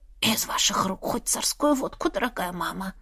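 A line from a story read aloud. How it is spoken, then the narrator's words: Whisper. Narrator (Russian): прошептала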